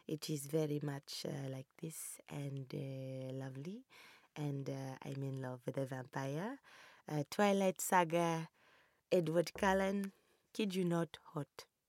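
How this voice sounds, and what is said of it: Put-on African accent. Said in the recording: “a African accent”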